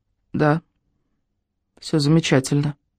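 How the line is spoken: Dry, lifeless voice. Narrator (Russian): ответила Даша сухим безжизненным голосом

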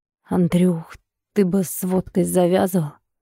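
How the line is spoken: Hoarse, rasping. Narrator (Russian): Сергей прохрипел

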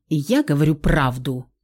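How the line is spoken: Offended. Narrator (Russian): Обиделся музыкант

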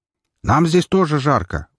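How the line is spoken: Shout. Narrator (Russian): выкрикнул Меркурий

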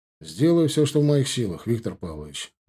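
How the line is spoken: Sighing. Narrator (Russian): вздохнул Мещеряков

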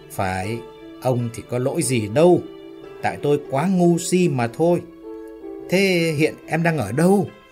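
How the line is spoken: Loud laughing speech. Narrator (Vietnamese): Ái Liên lại cười to

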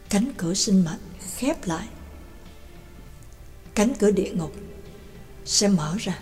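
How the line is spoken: Muttering. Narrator (Vietnamese): Trắc Mộc Cường Ba lẩm bẩm

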